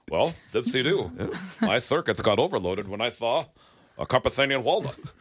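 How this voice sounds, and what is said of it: C-3PO style robot voice. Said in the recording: “C-3PO ... My new impression.”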